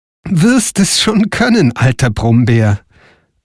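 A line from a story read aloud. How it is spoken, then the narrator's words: Laughing answer. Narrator (German): antwortete Frau Holle lachend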